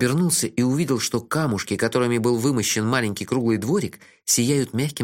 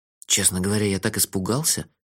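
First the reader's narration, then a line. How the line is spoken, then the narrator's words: Whispered confession. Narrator (Russian): шепотом признался я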